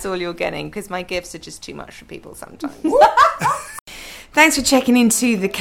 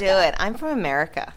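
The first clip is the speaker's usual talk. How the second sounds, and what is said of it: Put-on American accent. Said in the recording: “it's your turn to do an American accent ... That was brilliant.”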